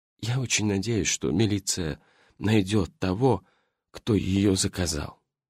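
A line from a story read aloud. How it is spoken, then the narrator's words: Sad. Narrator (Russian): Грустно сказал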